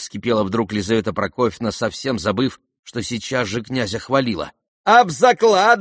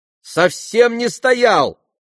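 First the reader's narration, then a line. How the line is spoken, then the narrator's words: Shout. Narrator (Russian): крикнул Коля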